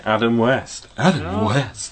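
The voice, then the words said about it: Adam West impression. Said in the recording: “my best Adam West impression.”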